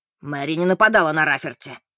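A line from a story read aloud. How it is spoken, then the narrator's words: Exasperated bark. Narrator (Russian): рявкнул, не выдержав Эммет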